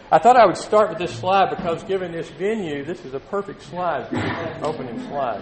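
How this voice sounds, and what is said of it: East Texas accent. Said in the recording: “Excuse my accent, I'm from East Texas.”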